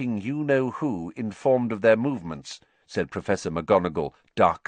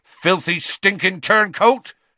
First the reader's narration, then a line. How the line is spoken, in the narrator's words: Hagrid said so loudly that half the bar went quiet